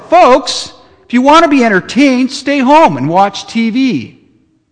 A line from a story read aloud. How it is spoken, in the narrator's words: yell